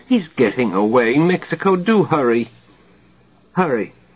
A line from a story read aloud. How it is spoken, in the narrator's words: the doctor above whimper